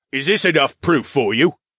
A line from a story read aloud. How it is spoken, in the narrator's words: Philip grunted